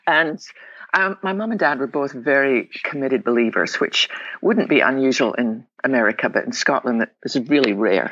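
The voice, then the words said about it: Scottish accent. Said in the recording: “I was born in the west coast of Scotland. Probably tell my accent.”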